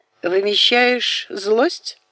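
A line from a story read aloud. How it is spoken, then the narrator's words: Chuckling again. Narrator (Russian): снова хохотнул неизвестный в маске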